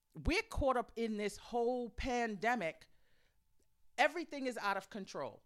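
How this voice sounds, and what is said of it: Agitated voice. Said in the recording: “you hear it in my voice where I'm a little bit agitated”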